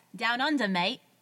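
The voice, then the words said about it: Put-on Australian accent. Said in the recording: “I don't even know if that's a good accent, but we're going to say it is.”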